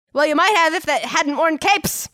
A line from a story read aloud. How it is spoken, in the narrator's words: Enda shouted, suddenly standing up